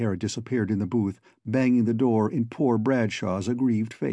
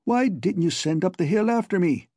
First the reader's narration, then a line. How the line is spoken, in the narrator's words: demanded O'Hara indignantly